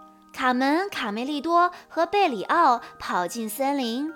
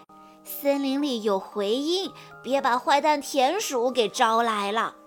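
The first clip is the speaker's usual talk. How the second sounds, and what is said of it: Quiet, hushed voice. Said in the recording (Chinese): “小声地说道”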